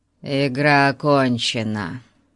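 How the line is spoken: Gloomy conclusion. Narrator (Russian): мрачно заключил пятый мужчина

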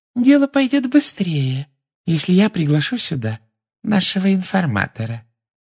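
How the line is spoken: Silky sweet voice. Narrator (Russian): шелковым голоском сказала из-за его спины Амбридж

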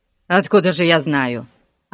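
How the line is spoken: Snapping. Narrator (Russian): огрызнулся мистер Хик

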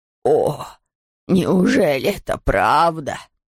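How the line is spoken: Exclamation. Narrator (Russian): воскликнул пастор

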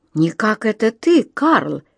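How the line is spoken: Exclaiming. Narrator (Russian): воскликнула она

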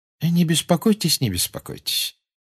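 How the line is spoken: Pleasant tone. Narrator (Russian): приятным тоном сказал Дамблдор

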